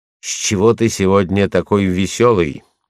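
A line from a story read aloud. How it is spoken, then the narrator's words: Angry question. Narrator (Russian): сердито спрашивает меня Светецкая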